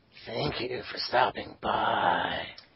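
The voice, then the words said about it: Creepy Resident Evil merchant voice. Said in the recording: “my creepy Resident Evil voice”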